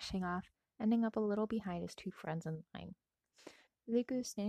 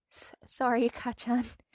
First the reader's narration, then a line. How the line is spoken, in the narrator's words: Izuku shakily replied